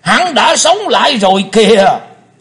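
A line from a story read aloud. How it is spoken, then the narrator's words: Thunderous echoing shout. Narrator (Vietnamese): Tiếng quát chấn động cả mặt sân tràng, vang dội cả không gian một chập rồi mới yên đi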